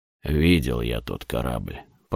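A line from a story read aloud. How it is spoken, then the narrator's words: Goat-faced father grumbling. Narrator (Russian): проворчал отец с козлиной мордой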